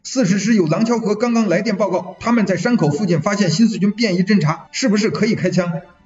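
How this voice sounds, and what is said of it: Heavy northern Shandong accent, hurried. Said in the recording (Chinese): “鲁北口音比往日大，也比往日急”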